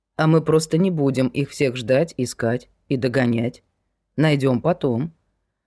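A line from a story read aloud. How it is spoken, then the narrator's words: Calm. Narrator (Russian): спокойно произнес Земцов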